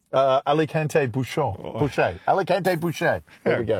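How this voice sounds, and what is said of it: French accent. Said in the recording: “French inflection ... You sound very French to me.”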